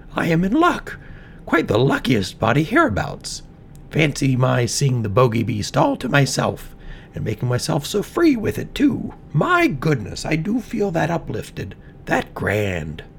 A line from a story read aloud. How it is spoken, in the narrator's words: she chuckled